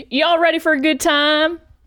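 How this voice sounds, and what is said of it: Put-on Southern accent. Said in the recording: “The southern accent”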